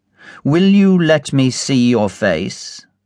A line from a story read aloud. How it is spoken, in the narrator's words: asked the lawyer